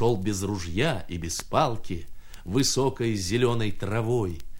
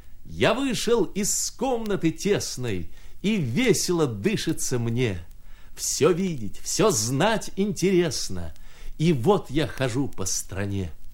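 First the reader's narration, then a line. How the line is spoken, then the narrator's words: Laughing recitation. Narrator (Russian): смеялся и сам приговаривал так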